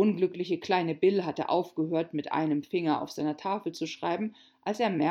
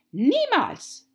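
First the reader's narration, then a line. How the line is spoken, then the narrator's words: Angry queen shouting. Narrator (German): rief die Königin wütend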